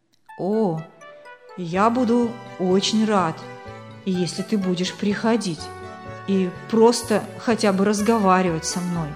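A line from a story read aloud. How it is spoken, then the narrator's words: Plain. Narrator (Russian): ответил Рес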